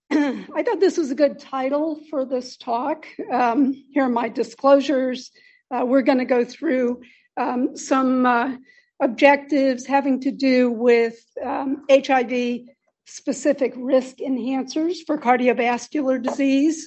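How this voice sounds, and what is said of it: Slightly hoarse voice. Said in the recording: “Seems like I'm a little hoarse.”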